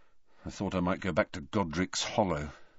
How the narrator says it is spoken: Harry muttered

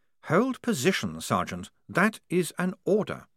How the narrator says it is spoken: said Blouse calmly

